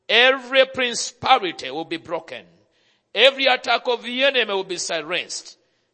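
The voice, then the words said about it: Speaks with a foreign accent. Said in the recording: “If you don't understand my accent, I will go slow... my accent is not your accent”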